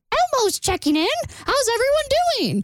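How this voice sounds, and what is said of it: Elmo impression. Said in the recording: “was that a good impression? ... It's an Elmo impression.”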